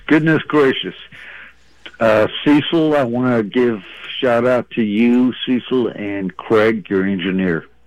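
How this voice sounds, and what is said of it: Hoarse, rough voice. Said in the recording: “my voice is shot. I'm sorry. I've been singing all night. ... I got a rough voice.”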